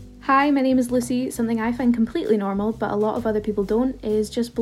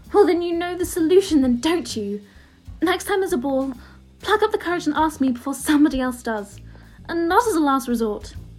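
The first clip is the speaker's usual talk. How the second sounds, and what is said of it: Convincing Emma Watson Hermione impression. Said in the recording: “amazing accent switch there... Bloody hell, that was like Emma was in the room.”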